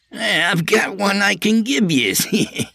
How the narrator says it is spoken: Artie said with a nervous laugh

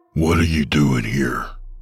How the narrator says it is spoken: snarled Hank

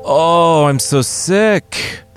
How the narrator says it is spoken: the king bellowed

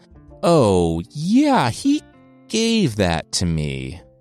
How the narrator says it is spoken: Sigurdr chuckled

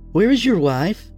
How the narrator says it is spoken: She asked nervously

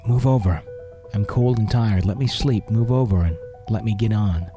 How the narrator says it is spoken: pretty much said in the giggly whisper

